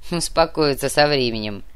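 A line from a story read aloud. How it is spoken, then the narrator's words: Dwarf's snort. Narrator (Russian): хмыкнул карлик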